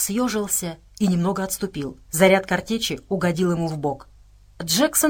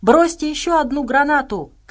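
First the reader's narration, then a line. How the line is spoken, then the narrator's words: Shouted. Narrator (Russian): крикнула Настя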